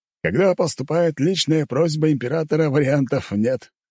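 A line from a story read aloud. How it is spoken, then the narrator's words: Chuckling. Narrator (Russian): хохотнул герцог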